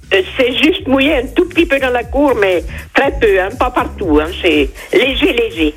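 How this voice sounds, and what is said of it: Berrichon regional French accent. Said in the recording (French): “On a un bel accent berrichon chez vous ... on l'entend de moins en moins”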